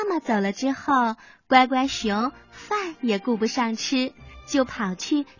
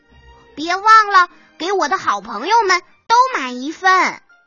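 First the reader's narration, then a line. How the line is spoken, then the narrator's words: Loud, from indoors. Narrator (Chinese): 乖乖熊在屋里大声的说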